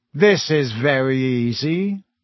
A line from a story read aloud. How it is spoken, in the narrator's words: Malfoy drawled loud enough for Harry to hear him